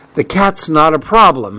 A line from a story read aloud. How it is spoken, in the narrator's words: he snapped